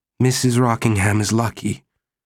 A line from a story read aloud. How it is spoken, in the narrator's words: Mary said bitterly